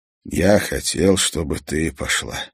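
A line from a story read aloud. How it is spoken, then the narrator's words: Sigh. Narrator (Russian): вздохнул Томас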